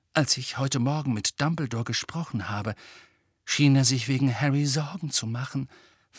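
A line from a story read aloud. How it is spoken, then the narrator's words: Whispered. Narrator (German): flüsterte Mrs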